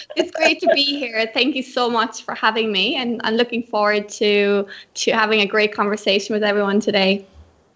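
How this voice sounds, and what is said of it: Irish accent. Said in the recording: “you will notice from her accent that she's actually from Ireland originally”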